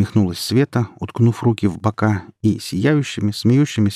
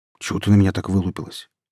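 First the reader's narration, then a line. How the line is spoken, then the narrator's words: Quiet, hurt teen's snap. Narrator (Russian): тихим голосом огрызнулся обиженный подросток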